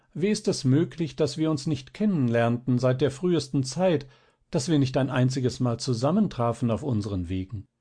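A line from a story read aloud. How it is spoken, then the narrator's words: Young woman calling out. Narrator (German): rief das Fräulein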